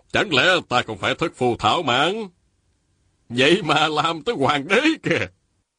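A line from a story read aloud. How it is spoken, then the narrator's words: Loud laugh, then resounding. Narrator (Vietnamese): Lý Tự Thành cười lớn rồi dõng dạc nói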